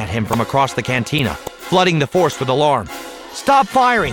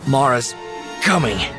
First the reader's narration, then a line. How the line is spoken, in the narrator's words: he gasped